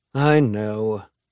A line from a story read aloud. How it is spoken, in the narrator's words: Henry says with a sigh